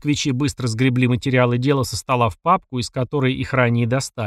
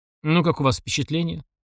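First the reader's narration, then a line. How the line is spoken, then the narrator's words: Casual offhand question. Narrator (Russian): задал вопрос небрежным тоном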